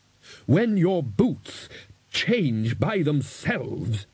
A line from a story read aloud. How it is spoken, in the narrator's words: he growled